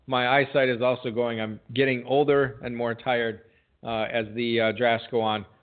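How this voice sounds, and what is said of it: Worn, failing voice. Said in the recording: “my voice is going a little bit”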